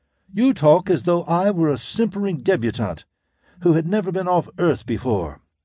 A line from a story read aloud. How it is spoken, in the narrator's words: said indignantly